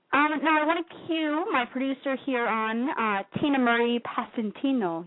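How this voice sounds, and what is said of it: Fancy put-on accent. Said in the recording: “You like my accent? ... I was trying to be fancy.”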